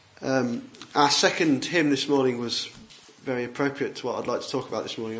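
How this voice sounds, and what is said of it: Congested voice with a cold. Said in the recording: “as you can probably tell, I've got a bit of a cold. ... keep blowing my nose and coughing and spluttering”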